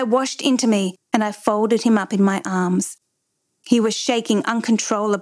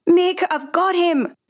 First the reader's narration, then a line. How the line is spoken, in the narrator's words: I screamed down the pipe